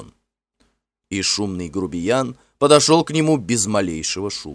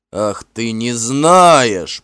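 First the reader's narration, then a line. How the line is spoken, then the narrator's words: Growl. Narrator (Russian): прорычал Финн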